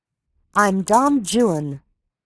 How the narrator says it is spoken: Amory shouted on impulse, raising his voice above the noise of the rain and the wind

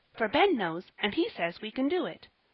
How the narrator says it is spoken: said Polly, eagerly

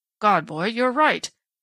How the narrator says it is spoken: Strawn exclaimed

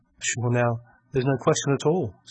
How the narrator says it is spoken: said Captain Blood

